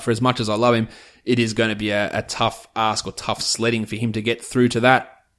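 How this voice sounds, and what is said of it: Strained, fading voice. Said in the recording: “I'm losing my voice,”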